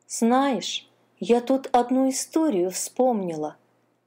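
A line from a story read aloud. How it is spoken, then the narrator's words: Plain. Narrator (Russian): снова сказала черепашка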